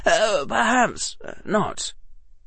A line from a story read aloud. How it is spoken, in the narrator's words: Harry said quietly